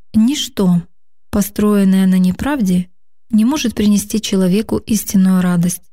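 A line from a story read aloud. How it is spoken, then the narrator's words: Sad reply. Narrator (Russian): печально ответила Лидия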